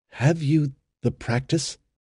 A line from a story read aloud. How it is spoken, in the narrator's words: His voice actually trembled as he said